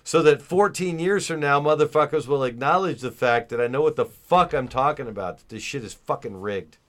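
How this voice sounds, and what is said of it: Yelling, loud angry voice. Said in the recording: “I'm yelling.”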